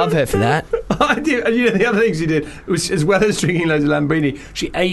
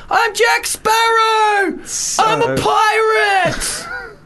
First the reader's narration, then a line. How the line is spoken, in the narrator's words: screaming